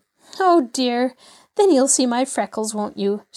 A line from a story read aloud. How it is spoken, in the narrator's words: She sighed